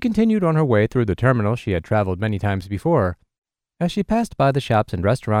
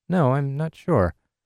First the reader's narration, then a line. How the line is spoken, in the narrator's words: The bewildered business traveler answered in a worried voice that trailed off at the end